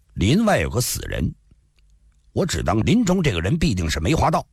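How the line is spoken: Cold. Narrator (Chinese): 锦衣少年……冷冷说道

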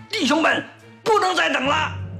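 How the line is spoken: Loud shout. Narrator (Chinese): 冲身后大喊一声

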